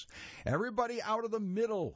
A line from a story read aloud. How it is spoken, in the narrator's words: a volunteer yells